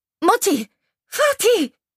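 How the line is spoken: Screaming. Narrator (German): Ruth schrie nun

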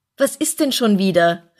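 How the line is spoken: Called out. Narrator (German): rief er

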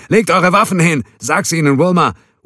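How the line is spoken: Bellowing in Spanish. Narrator (German): Wilma brüllt die Aufforderung auf Spanisch

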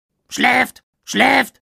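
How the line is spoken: Raven's croak. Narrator (German): krächzte der Rabe

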